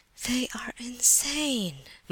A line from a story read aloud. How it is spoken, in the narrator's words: muttered Elizabetha Prokofievna